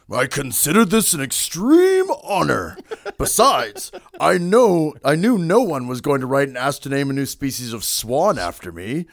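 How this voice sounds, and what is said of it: Gary Larson impression, imperious stuffy voice. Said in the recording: “good Gary Larson impression ... He talks imperiously, I predict ... he seems so stuffy”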